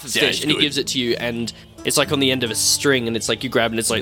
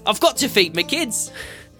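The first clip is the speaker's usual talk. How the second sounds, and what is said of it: Put-on character accent. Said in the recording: “I forgot what the accent was, so it's now this.”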